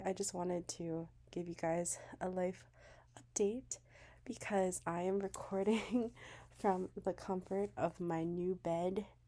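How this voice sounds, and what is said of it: Slightly raspy voice. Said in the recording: “my voice is like a bit raspy, sounds a little bit different. I've been recovering from a cold”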